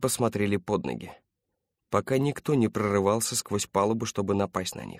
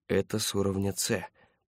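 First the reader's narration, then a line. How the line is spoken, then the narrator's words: Muttered. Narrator (Russian): пробормотал Паркер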